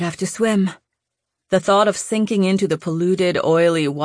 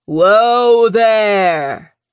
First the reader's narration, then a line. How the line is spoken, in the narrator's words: a voice bellowed